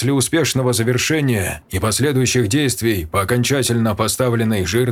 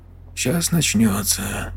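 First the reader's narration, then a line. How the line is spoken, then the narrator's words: Whisper. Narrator (Russian): прошептал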